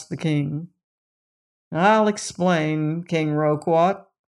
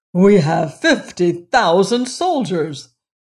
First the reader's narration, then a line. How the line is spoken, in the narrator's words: cried the king proudly